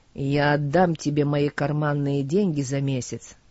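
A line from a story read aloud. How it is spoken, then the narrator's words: Cold. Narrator (Russian): сказала она холодно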